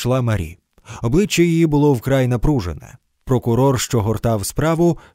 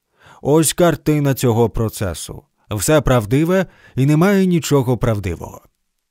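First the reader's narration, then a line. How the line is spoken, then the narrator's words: Commanding voice. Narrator (Ukrainian): мій адвокат сказав владним голосом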